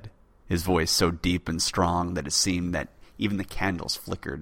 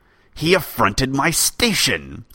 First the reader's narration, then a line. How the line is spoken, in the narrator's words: snapped Delann